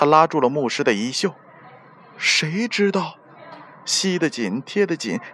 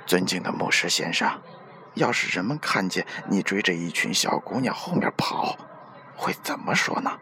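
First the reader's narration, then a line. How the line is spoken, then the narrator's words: Whispering. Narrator (Chinese): 教堂执事对牧师低声地说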